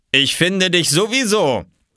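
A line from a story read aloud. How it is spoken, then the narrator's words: Called out. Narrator (German): rief er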